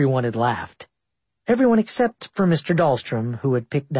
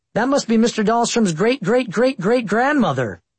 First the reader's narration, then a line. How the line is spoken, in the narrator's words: Maybe it had something to do with my Tourette's, but I blurted out